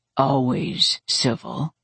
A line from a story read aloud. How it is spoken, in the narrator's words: he murmured